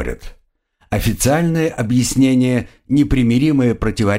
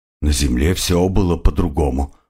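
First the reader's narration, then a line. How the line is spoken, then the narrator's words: Muttered. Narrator (Russian): пробормотал крокодил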